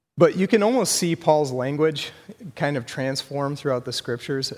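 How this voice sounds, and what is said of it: Hoarse, strained voice. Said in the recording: “I've got a cough that's been killing me for the last couple weeks. Kind of losing my voice tonight.”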